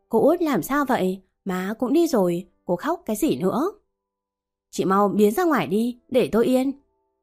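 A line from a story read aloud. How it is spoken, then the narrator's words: Mocking laugh. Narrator (Vietnamese): Mợ Hồng cười mỉa mai rồi nói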